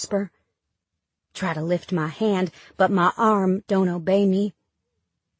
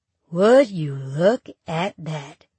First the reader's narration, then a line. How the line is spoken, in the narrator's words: Duke says slowly